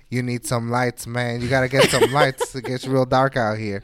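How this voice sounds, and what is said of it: Imitates another person's voice. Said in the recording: “That Kevin Hart impression.”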